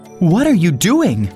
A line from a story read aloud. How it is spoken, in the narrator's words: cried Ali Baba